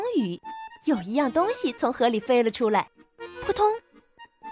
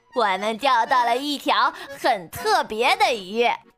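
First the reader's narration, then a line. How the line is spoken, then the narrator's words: Laughing. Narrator (Chinese): 弗洛格笑了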